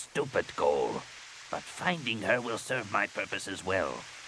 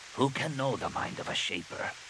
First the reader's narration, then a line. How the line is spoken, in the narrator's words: He said softly